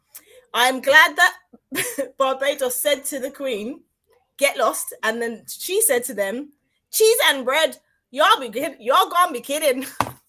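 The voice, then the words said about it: Put-on Bajan accent. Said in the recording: “I'm going to try my Bajan accent. Please excuse me, Bajans, because I'm Grenadian. I don't know how to do this”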